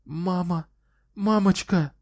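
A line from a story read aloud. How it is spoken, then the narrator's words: Sobbing. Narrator (Russian): всхлипывала она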